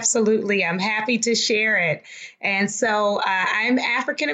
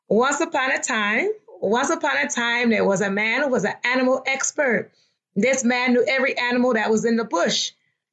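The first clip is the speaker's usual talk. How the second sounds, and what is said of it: Put-on Liberian English accent. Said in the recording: “I'll tell the story in my version of Liberian English ... you will get the genuine accent, but I will just give you my variation”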